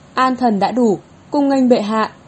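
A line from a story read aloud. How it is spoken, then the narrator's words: Loud raised voice. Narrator (Vietnamese): thái thường tự khanh ở ngoài lều vàng cao giọng nói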